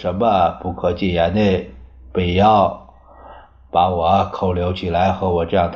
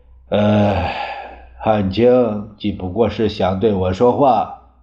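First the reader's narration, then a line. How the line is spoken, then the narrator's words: Sighing after a pause. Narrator (Chinese): 蒋介石 半晌叹道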